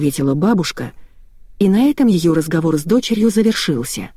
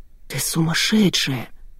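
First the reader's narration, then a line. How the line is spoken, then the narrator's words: Whispering. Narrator (Russian): прошептала Анна Ивановна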